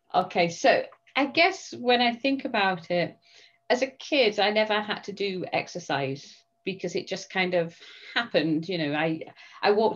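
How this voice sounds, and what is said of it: British accent. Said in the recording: “she's got a really cool British accent”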